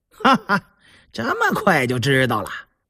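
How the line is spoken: Laughing. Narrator (Chinese): 胤祥伸着懒腰起身笑道

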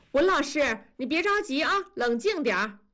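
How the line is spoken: Shouted from behind. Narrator (Chinese): 校长在背后喊

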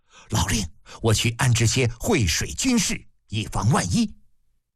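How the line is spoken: Anxious low voice. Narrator (Chinese): 李斯有些着急……低声道

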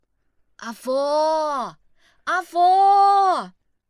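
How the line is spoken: Calling out. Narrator (Chinese): 孟梅还不应，就开始叫绰号

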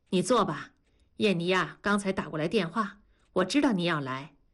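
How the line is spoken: Smiling. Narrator (Chinese): 陈红阳依然一脸笑意地说

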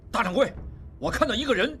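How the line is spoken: Loud. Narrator (Chinese): 一个高个伙计看王宗宇大声说

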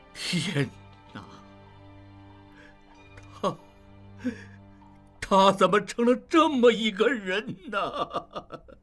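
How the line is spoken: Loud wailing. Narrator (Chinese): 高瑞放声大哭

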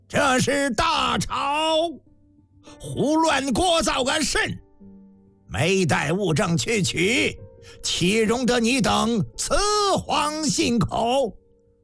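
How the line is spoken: Angry roar. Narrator (Chinese): 老银奔秉性暴烈深沉，怒喝

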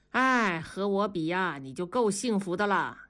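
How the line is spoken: Sighing. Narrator (Chinese): 大庄也叹了口气说

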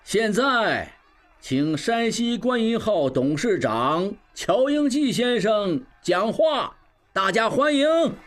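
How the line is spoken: Loud. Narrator (Chinese): 曾有志又大声道

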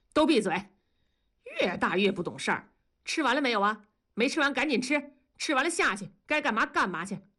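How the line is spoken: Angry. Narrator (Chinese): 同志就怒道

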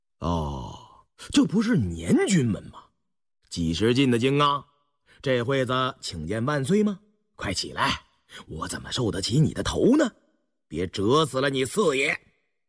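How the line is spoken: Flat, indifferent. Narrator (Chinese): 胤禛淡淡地说道

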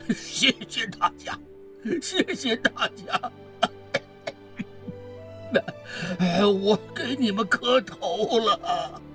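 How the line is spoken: Old man, coughing, crying. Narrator (Chinese): 那位咳嗽的老人哭着说

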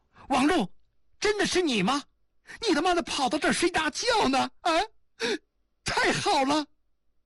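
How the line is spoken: Surprised joyful shout. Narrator (Chinese): 亚历坤也惊喜地喊道

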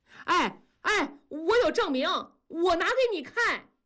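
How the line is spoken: Sudden loud shout. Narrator (Chinese): 突然扯着嗓子喊

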